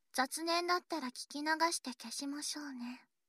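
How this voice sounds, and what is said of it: Soft whispering voice. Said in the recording (Japanese): “今このささやきは私の声”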